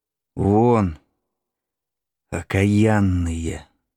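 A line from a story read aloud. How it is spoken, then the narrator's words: Quiet. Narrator (Russian): сказала негромко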